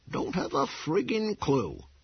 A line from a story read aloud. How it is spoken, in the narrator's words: Pop repeated cheerfully